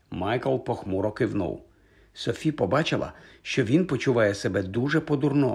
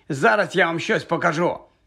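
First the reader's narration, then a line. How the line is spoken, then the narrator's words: Shouted. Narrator (Ukrainian): крикнув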